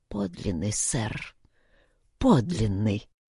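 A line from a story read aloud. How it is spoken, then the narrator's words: Old man muttering. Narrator (Russian): бормотал старик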